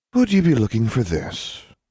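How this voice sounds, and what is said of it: Melodic character voice. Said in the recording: “in a surprisingly melodic voice”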